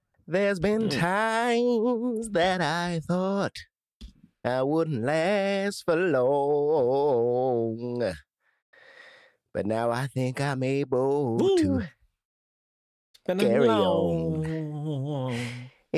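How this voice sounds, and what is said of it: Sung impression of a soul singer. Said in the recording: “your best Sam Cooke impression? ... He don't sound like a soulful black man. ... Not like Sam Cooke.”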